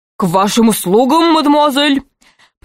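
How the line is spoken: Strained deep bass. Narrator (Russian): произнес он натужным басом

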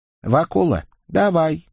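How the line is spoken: Calm request. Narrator (Russian): спокойно, ежели вообще неравнодушно, попросил Николя

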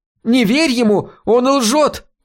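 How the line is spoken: Shrieking. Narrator (Russian): визжала Хелена

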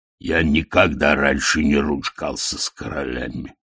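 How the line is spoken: Booming drone. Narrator (Russian): прогудел Детрит

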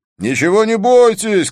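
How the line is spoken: Several voices shouting. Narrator (Russian): кричали они

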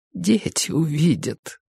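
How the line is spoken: Whispering. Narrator (Russian): прошептала она

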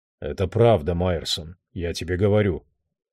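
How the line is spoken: Calm. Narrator (Russian): спокойно сказал Тодд Моррис

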